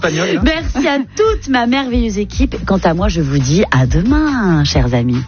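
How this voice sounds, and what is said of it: Put-on Spanish accent in French. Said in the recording (French): “J'avais envie de faire un petit accent espagnol pour conclure cette émission.”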